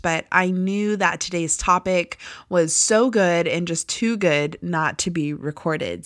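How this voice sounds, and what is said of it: Slightly hoarse, sore-throated voice. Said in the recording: “I have a little bit of a sore throat”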